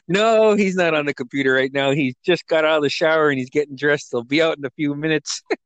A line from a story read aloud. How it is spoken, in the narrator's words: he started laughing and he said